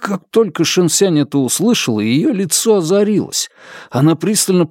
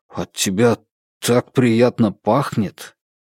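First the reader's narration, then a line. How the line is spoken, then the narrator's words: Stunned mumble. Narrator (Russian): Я был так потрясен, что только и смог пробормотать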